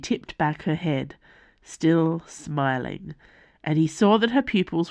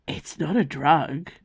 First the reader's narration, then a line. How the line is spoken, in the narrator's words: Dio breathed